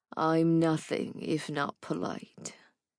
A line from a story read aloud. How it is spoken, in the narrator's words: said dryly